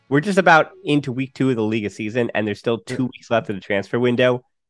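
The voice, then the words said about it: Sick, under-the-weather voice. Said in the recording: “I think you might be able to hear it in my voice. I'm under the weather ... I'm a little bit under the weather”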